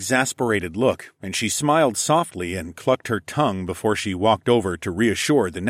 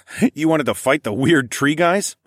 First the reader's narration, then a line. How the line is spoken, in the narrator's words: barked a laugh